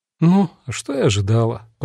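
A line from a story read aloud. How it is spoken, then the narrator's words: Muttering to herself. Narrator (Russian): пробормотала сама себе девушка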